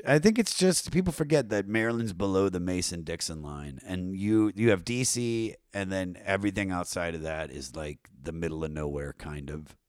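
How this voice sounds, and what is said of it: Baltimore twang, slightly southern-sounding. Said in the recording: “explain the Baltimore twang. ... That's just my accent. I lived in Baltimore for, you know, 7-8 years. ... A little stank on it. ... sometimes I sound like a southern woman when I'm on stage”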